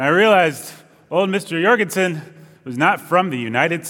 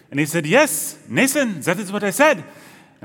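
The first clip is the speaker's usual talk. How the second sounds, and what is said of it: Weak imitation of thick Danish accent. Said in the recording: “that was not a good Denmark accent ... Mr. Jorgensen had a very thick Danish accent”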